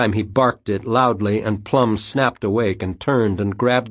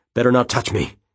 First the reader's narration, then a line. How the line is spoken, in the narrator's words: he said through clenched teeth